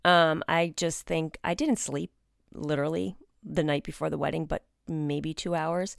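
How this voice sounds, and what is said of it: Slightly congested voice with cold. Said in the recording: “caught a little tiny bit of a cold ... if you hear that in my voice”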